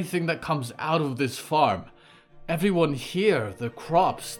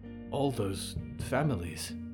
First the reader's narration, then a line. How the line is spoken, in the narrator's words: Moth whispered